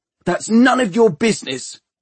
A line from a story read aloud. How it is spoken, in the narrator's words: shouted Tom angrily